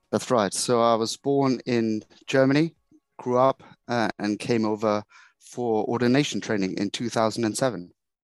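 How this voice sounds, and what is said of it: German accent. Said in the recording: “as you can probably guess from ... accent, he's not English. He's German.”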